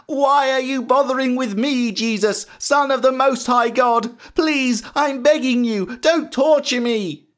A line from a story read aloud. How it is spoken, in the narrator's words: He was pleading with Jesus because already Jesus had started telling the evil spirits to come out of the man and leave him alone